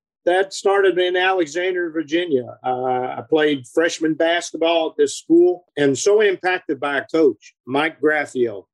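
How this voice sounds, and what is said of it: Southern American drawl. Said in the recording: “I got impounded again with that Southern drawl. And I guess it just grew on me from there.”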